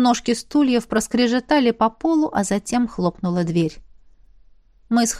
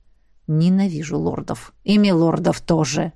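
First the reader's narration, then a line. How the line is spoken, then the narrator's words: Grumbled. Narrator (Russian): проворчал Ахараш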